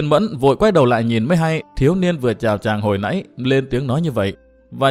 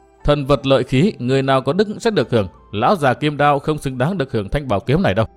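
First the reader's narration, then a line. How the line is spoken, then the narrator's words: Scornful, clear distant voice. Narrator (Vietnamese): có tiếng cười nhạt và có tiếng nói rất thánh thoát vọng tới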